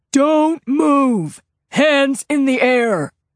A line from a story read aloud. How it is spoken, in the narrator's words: A voice amplified through a bullhorn boomed